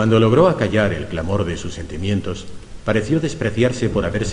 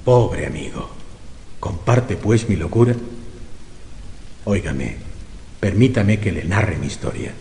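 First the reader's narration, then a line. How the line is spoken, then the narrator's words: Broken, faltering voice. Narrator (Spanish): dijo con voz entrecortada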